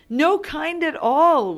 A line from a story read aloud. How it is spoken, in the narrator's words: we'd shout